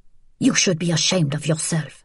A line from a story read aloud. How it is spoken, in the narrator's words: a heavy-set woman in peasant clothes made a harrumphing sound of disgust and whispered